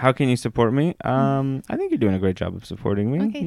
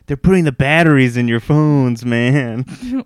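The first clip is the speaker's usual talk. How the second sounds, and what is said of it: Conspiracy theorist impression. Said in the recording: “my impression of a conspiracy theorist”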